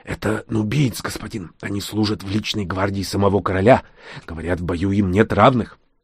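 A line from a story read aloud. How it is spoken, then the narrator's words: Quick whisper. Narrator (Russian): трактирщик быстро прошептал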